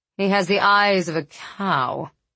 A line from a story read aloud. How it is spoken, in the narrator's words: Corian sneered